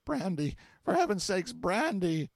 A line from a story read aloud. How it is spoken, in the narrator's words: he fell to gasping, and between the gasps ejaculated